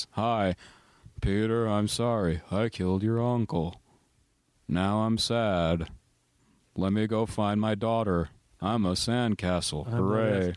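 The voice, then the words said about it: Flat monotone imitation of another person. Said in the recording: “It's kind of monotone... It really is... He sounds like he's sleeping through his lines”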